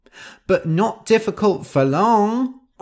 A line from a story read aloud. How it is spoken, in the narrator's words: cried Nosy